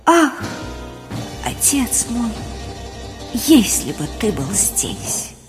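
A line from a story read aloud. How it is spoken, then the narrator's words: Dying whisper. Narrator (Russian): совсем уже кончаясь, прошептал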